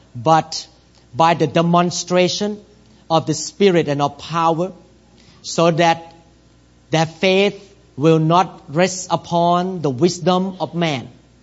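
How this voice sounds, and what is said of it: Non-native English accent. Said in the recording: “I don't know all the English words ... I have accent ... I don't speak fluently like many local pastors here”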